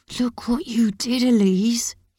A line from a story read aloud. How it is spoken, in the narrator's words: he hisses